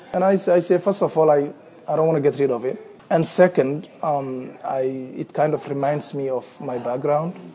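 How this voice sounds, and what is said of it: Somali-accented English. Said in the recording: “Somalia, where I come from ... I love keeping my accent ... why is your accent?”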